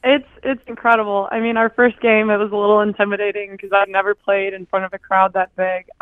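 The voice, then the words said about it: Slightly hoarse voice from screaming. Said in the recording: “my voice is a little hoarse. It's from screaming over the 5,000 people at our games.”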